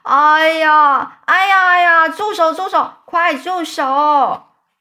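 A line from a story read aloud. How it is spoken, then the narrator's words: Screaming in pain. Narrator (Chinese): 蜈蚣发出惨叫声，说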